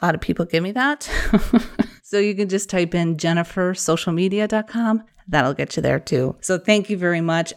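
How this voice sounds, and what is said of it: Wisconsin accent. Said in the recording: “my Wisconsin accent”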